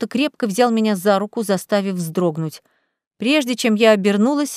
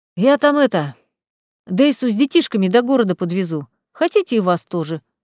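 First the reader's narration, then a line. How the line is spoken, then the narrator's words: Deep bass, burly man. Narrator (Russian): густым басом поинтересовался здоровый мужик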